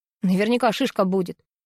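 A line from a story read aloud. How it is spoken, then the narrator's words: Angry. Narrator (Russian): сердито произнес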